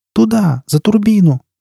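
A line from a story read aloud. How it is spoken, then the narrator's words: Shout. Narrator (Russian): крикнула Настя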